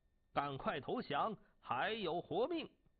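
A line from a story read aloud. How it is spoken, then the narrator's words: General shouting. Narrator (Chinese): 晋国大将胡射孤喊道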